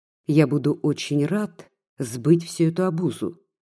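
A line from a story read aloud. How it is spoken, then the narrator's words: Calm, casual. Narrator (Russian): спокойно и небрежно сказал Егор Александрович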